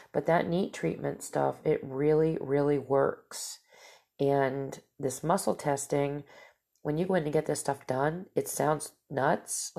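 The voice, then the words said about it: Nasal, stuffed-up voice. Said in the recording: “my nose gets really stuffed up ... my voice is not usually this nasally, but it's just, it's like I said, it's my allergies”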